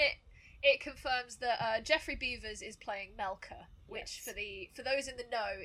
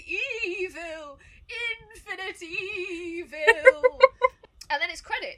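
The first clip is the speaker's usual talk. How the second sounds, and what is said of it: Character voice of the Keeper. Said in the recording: “Very good impression there. Incredible.”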